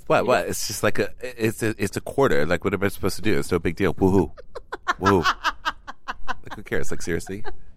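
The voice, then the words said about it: Impression of Vicky. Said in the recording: “Do it in your Vicky voice.”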